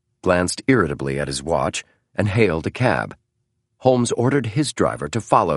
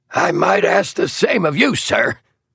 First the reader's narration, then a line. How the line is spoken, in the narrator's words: snapped Brock